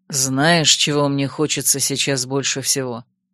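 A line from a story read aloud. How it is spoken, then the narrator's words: Plain. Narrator (Russian): спросил меня ассасин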